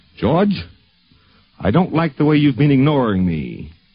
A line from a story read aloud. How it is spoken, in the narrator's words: Golden, in his usual affable, booming way, said